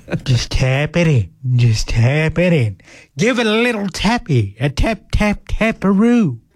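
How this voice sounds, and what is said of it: Impression of a movie character. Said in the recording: “my Happy Gilmore impression”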